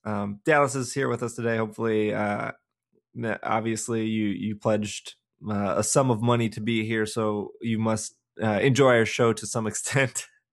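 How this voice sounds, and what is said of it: Scratchy voice. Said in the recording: “I feel like my voice is very scratchy today... I apologize if my voice is scratchy in advance.”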